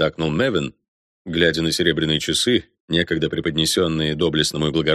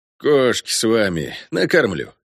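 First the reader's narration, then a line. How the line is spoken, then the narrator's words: Grunt. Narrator (Russian): хмыкнул Робер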